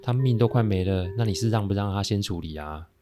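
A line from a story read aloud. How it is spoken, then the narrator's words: Flat indifferent tone. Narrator (Chinese): 师姐淡淡的说了一句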